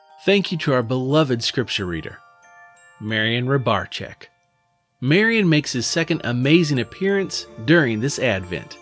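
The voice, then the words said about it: Indiana Hoosier accent. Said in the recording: “my Hoosier accent”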